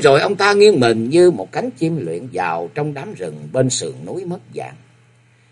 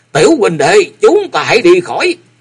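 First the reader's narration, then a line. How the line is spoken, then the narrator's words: Loud shout. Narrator (Vietnamese): ông quát to lên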